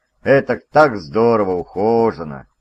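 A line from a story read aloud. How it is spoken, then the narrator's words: Sigh. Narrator (Russian): Шон вздохнул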